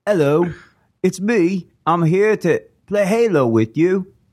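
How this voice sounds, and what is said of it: Exaggerated fake British accent. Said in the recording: “his version of a British accent ... sounds like a Fable character ... It sounds like Bob Odenkirk. It's just not in a good way.”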